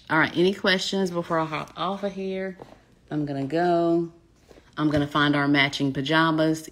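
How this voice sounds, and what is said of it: Smooth voice, Southern American accent. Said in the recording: “you talk so smooth ... your voice and then your Southern accent. I'm a Southern belle, y'all.”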